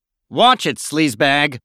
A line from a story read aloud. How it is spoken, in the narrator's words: growled Bannon